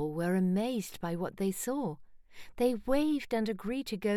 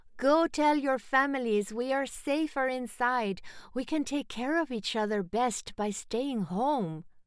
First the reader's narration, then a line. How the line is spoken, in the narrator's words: Salem cried out to the children in the streets